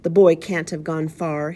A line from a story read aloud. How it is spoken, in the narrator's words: urged desperately